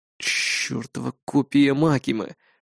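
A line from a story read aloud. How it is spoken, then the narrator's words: Low rumble, heavy sigh. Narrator (Russian): проурчал я и тяжко выдохнул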